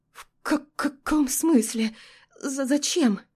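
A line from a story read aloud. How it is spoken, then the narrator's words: Stunned stammering. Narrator (Russian): Заикаюсь я, ошалев от приказа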